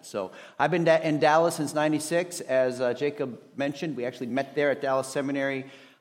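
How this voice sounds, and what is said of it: Minnesota accent. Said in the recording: “this accent. It's a Minnesota accent.”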